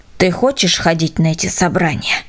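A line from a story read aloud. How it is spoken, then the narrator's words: Stern question. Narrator (Russian): строго спросил Миша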